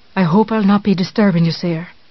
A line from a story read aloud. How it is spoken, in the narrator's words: this visitor said